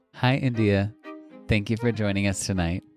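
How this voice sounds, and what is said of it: Formal radio-interviewer voice. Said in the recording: “That's my you, you, interview voice ... putting on your NPR voice”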